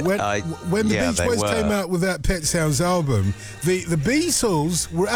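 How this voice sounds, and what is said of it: Usual voice. Nothing is said of it.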